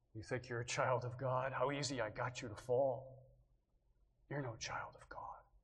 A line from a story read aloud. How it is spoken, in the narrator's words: The snake whispers now